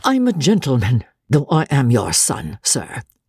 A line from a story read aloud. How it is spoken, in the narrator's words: George answered haughtily